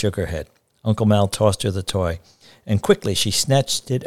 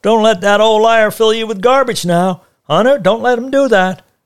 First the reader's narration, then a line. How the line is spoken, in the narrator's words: he shouted